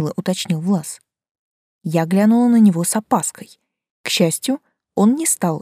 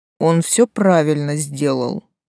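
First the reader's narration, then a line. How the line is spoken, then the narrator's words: Lazy tone. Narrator (Russian): лениво сказал Леший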